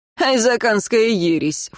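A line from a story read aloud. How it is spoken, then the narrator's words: Snorted. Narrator (Russian): фыркнул кто-то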